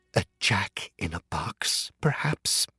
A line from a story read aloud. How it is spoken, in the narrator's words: she whispered